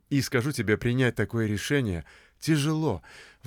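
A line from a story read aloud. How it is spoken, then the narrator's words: Sighing. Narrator (Russian): вздохнул Бобби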